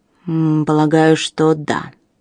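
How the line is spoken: Grumbled. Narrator (Russian): проворчал Алластер

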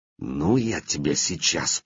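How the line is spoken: Hiss. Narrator (Russian): прошипел отрок

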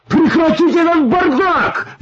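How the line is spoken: Shouted. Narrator (Russian): закричал диспетчер

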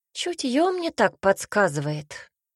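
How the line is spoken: Sighing servant. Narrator (Russian): вздохнул слуга

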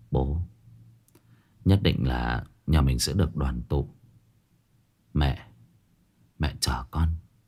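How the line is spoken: Muttering. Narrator (Vietnamese): Lãm lẩm bẩm

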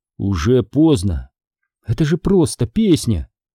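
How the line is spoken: Desperate exclamation. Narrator (Russian): в отчаянии воскликнула Дженни

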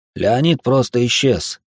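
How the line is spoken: Sad reply. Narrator (Russian): грустно ответил Арапов

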